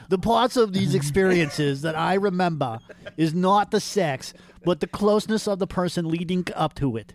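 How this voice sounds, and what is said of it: Old Jewish woman character voice. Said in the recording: “Apparently, my impression of Robert is the same as an old Jewish woman. ... the part of Robert Earlywine will be played by an old Jewish woman.”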